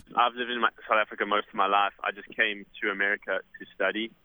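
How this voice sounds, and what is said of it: South African accent. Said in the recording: “I can tell from your accent you're a native.”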